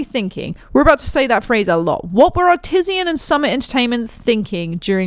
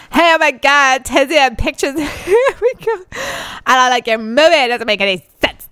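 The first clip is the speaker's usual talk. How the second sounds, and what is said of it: Put-on stereotyped gay man voice. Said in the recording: “do my gay man voice”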